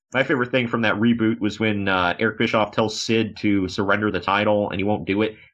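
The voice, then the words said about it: Sarcastic tone. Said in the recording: “I'm saying this sarcastically”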